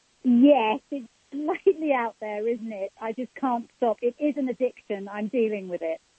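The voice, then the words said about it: Beautiful, calming English accent. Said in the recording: “that beautiful accent ... never lose that accent ... You could calm anyone down with the sound of it”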